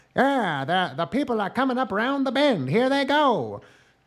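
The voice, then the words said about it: Old-fashioned continental radio host accent. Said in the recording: “that radio host voice ... That accent. That's a continental accent. It's not a real accent from a specific country ... indicative of high-class society”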